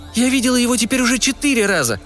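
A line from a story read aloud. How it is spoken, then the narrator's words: Exclaiming. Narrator (Russian): воскликнула Уна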